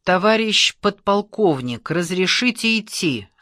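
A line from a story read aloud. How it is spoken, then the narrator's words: Plain. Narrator (Russian): спросил Чашкин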